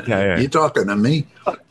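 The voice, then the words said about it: Imitates another person's voice. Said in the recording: “your Robert De Niro impression”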